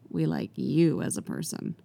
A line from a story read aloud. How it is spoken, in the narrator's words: Mira smirks and says